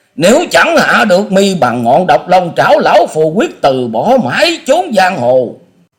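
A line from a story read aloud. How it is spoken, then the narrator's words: Shrill hissing scream. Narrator (Vietnamese): Ông ... thét lên trong giọng rít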